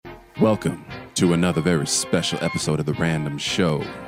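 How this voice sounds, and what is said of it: Deep, sexy voice. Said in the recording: “when I put on my deep, sexy voice”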